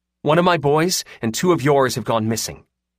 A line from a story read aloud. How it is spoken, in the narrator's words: Riley said harshly